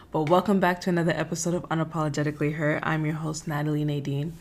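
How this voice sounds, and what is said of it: Tired, deeper-than-usual voice. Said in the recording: “if I sound a little tired. My voice sound a little deeper than usual.”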